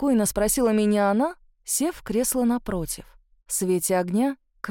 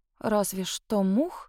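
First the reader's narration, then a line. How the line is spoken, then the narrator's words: Puzzled mutter. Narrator (Russian): пробормотала я в недоумении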